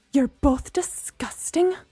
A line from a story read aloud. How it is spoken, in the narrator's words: Gemma spat